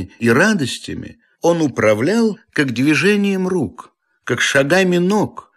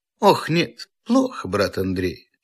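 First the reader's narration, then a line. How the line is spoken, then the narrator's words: Sighing. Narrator (Russian): вздохнув, сказал Обломов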